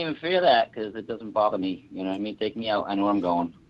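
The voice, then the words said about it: Boston accent. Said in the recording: “You can't tell my accent ... I'm up in the Boston area”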